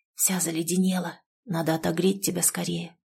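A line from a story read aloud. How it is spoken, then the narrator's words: Whisper. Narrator (Russian): прошептал Володя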